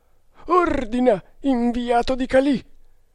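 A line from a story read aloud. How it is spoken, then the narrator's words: Trembling voice. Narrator (Italian): disse con voce tremante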